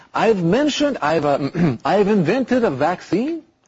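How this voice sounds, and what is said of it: Deliberately bad fake French accent. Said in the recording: “should I do a French accent? ... try a French accent ... I'm totally ruining the French accent ... before we continue with that French accent”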